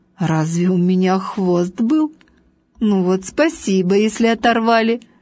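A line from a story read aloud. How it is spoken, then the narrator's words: Laughing. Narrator (Russian): Важный засмеялся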